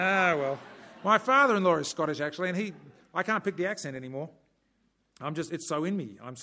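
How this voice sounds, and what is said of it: Usual voice. Nothing is said of it.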